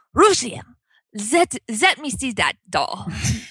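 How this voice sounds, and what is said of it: Imitated elderly Dutch accent. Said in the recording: “in her Dutch accent”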